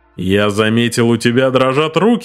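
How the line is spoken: Deep voice, mock seriousness. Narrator (Russian): пробасил Митч с притворной серьезностью

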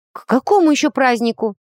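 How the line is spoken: Startled, frightened question. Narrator (Russian): Тут же испуганно подскочила я на кровати

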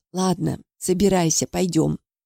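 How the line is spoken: Tearful, trembling voice. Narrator (Russian): Тетя смахнула слезу и дрогнувшим голосом сказала

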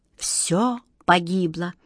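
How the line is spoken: Hopeless whisper. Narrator (Russian): безнадежно прошептал волшебник Алёша

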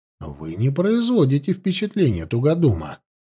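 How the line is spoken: Gentle remark. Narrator (Russian): мягко заметил Данилов

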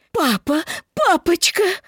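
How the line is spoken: Woman sobbing, straining voice. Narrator (Russian): женский голос, всхлипывающий и надрывающийся

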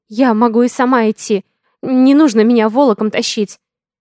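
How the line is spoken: Pitiful frightened voice. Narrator (Russian): Мой голос, вопреки желанию, звучит жалко и испуганно

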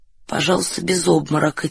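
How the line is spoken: Quiet. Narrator (Russian): тихо сказал Фондорин

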